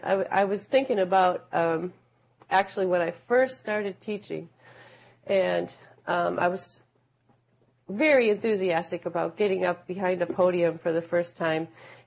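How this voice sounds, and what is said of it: Low voice, recovering from cold. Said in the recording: “my voice is a little bit low, it's because I'm getting over a cold”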